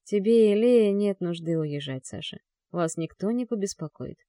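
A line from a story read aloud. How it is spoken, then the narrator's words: Plain. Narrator (Russian): говорит Крестовский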